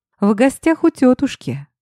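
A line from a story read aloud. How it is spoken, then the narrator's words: Cheerful chuckle. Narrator (Russian): бодро и весело хмыкнул он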